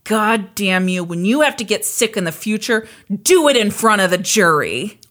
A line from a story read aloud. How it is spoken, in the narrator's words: Foreman snarled at her